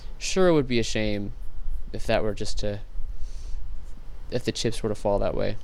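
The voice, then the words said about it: Sarcastic tone. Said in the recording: “being sarcastic?”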